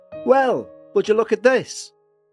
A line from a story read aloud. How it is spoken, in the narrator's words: His voice was relieved, but tinged with confusion